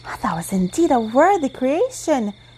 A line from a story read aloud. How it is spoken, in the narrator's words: cried the little queen